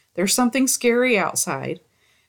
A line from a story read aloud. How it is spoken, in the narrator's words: I immediately began in a shaken voice